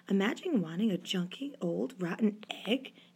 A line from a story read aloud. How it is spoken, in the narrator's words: he muttered